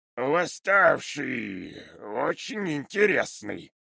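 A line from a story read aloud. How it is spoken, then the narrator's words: Drawl. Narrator (Russian): протянул он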